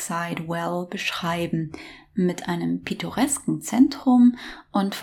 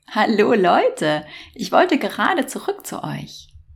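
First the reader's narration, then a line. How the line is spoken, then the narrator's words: Laughing greeting. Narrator (German): Lachend begrüßten sich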